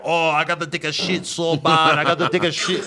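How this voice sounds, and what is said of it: Put-on accent. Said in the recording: “Stop with your accent.”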